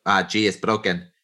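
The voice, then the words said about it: Put-on Spanish accent. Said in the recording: “He was Spanish. That's my Spanish accent.”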